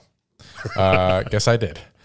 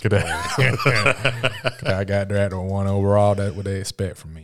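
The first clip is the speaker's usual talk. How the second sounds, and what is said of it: Put-on deep Southern accent. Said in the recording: “Deep in Southern. ... Southern accent. ... It's my Southern accent, not my Black accent.”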